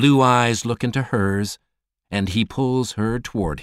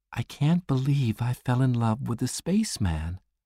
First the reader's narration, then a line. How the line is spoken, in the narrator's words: she says softly